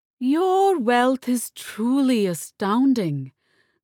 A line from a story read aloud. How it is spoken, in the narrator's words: Gulalai said, with a labored sigh